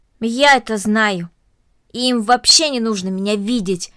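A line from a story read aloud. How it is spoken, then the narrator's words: Angry. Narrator (Russian): сердито произнесла Корнелли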